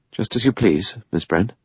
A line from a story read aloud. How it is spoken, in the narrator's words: He said stiffly